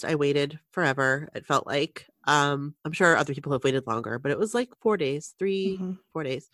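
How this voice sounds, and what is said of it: Nasal, stuffy congested voice. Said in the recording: “you can hear it in my voice. Like it's kind of turned into this just cold, like it's a regular cold. So if I sound a little nasally, a little stuffy”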